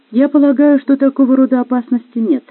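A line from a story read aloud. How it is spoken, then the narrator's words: Soft gentle reply. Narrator (Russian): мягко ответила она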